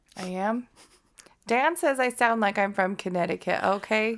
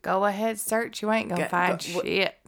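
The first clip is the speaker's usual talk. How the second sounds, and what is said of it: Put-on Southern accent. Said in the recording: “Why are you talking like that? You're from Connecticut. ... With my southern accent.”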